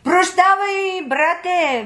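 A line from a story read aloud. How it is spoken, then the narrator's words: King calling out. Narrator (Bulgarian): викнал му царят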